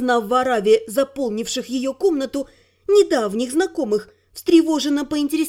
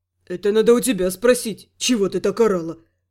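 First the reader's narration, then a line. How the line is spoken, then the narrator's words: Muttered in confusion. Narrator (Russian): В замешательстве пробормотал Рент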